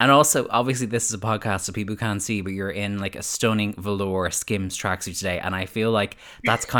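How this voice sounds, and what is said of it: Usual voice. Nothing is said of it.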